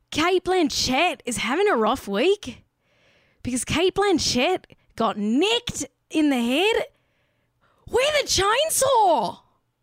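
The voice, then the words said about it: Put-on Australian accent. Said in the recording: “Let me say that in an Australian accent”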